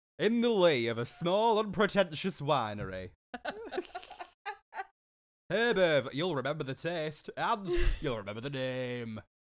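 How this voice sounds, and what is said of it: Character lines in an imitated accent. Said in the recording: “Imagine Moira Rose, but with the accent of Mel B.”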